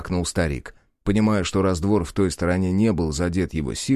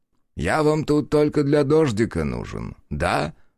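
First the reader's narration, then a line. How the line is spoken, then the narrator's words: Chuckling. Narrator (Russian): хохотнул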